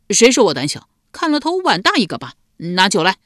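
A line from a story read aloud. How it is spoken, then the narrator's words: Angry, tipsy. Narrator (Chinese): 赖毛被激怒了，瞪着一双微醉的小眼道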